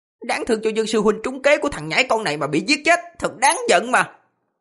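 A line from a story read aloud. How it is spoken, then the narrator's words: Hissing. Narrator (Vietnamese): Một người mở miệng rít lên, nói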